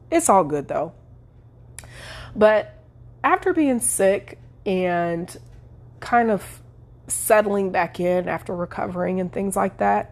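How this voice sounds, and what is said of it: Nasal, congested voice. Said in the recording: “you probably can hear it in my voice, I'm still a little nasally. I still have a little bit of something going on with my voice.”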